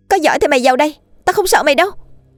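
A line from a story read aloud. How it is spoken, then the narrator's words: Sudden defiant shout. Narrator (Vietnamese): Lan bất ngờ hét lớn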